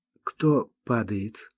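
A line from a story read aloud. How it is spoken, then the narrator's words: Timid question. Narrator (Russian): робко спросил Климан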